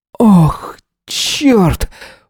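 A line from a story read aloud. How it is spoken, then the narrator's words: Breathless exhale. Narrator (Russian): выдохнул Эзра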